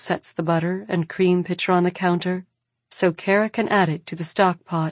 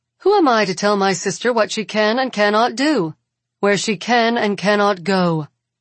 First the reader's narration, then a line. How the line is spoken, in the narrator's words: Kara says, her voice sharp